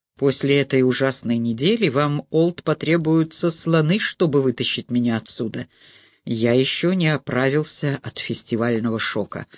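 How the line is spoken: Plain. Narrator (Russian): сказал Грайер

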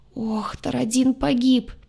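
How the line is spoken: Lost, groaning. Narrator (Russian): потерянно простонал штурмовик

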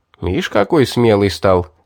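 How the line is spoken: Short laugh. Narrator (Russian): хохотнул Вард

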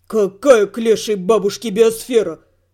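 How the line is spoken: Coherent drunken mutter. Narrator (Russian): пробурчал он на редкость связно для пьяницы

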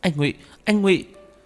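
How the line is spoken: Woman crying out. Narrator (Vietnamese): Cô kêu lên

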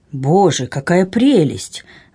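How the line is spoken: Delighted exclamation. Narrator (Russian): воскликнул селянин

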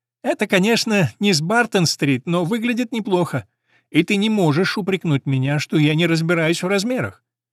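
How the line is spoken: Laughing, then speaking. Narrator (Russian): она рассмеялась и говорит

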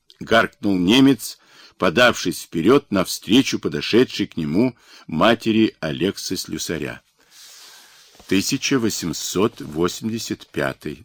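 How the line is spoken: Calm reply, woman. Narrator (Russian): спокойно ответила женщина

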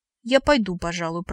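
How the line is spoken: Frightened babbling. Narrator (Russian): пролепетала, затравленно

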